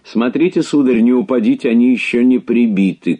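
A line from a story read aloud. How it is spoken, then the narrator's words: Shouting. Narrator (Russian): крикнула мне Франсуаза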